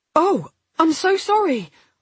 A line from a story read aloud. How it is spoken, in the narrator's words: gasped